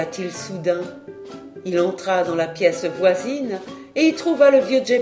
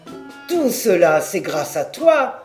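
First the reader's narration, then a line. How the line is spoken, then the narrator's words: Plain. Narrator (French): répondit Geppetto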